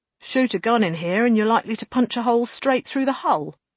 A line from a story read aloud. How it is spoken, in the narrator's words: Lane said tightly